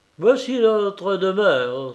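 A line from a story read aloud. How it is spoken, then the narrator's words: Exclaimed. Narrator (French): s'écria Gagin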